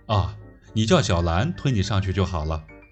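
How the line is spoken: Cool, indifferent. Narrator (Chinese): 莫小春 淡淡的说

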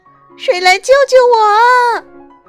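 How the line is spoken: Faint voice lost in wind. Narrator (Chinese): 她细小的声音立刻消失在呼啸的狂风中

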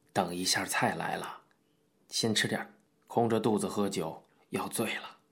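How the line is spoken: Low voice. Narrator (Chinese): 林茂雄低声对小玉说

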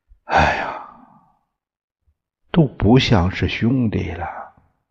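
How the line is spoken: Long sigh. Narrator (Chinese): 叹口长气，感叹道

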